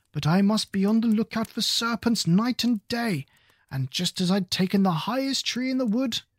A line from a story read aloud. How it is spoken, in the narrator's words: continued the pigeon, raising its voice to a shriek